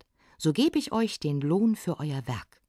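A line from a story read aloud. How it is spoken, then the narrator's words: Called out. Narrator (German): rief er ans Auenland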